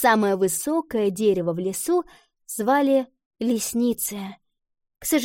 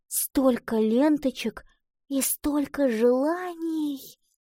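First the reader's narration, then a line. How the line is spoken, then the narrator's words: Heartfelt whisper. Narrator (Russian): с чувством прошептала она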